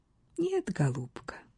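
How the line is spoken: Objecting, countess. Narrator (Russian): возразила графиня

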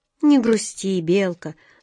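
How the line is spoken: Tender. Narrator (Russian): ласково сказал он

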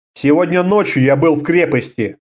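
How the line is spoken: Calm. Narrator (Russian): сказал Конн спокойно

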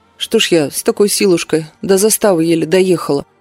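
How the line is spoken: Quiet grumbling. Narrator (Russian): тихо пробурчала

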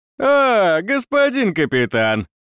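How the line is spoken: Crooked drunken laughing speech. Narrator (Russian): Солдат рассмеялся криво и пьяно

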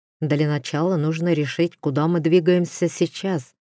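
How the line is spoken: Plain. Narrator (Russian): сказал Дер

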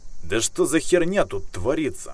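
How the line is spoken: Sharp shout. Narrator (Russian): прикрикнул капитан

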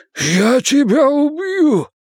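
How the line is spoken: Hoarse rasp. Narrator (Russian): прохрипел

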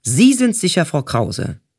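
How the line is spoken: Called out. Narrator (German): Der Chef, oder besser der Chief, rief dann

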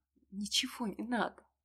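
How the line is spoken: Barely audible. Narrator (Russian): Обронила едва слышно

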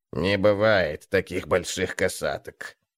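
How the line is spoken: Hoarse rasp. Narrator (Russian): прохрипел Гнуп

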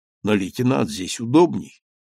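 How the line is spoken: Very peaceful tone. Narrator (Russian): самым мирным тоном сказал я

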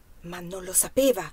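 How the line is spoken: Whisper. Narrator (Italian): sussurrò

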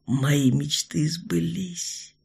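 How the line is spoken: Quiet, tender. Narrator (Russian): тихо сказал он

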